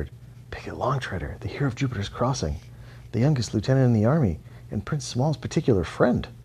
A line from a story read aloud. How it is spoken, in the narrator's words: Many rabbits whispered